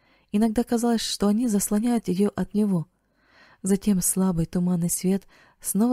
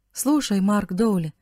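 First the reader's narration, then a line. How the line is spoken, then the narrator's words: Loud cheerful voice. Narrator (Russian): сказал он громким, бодрым голосом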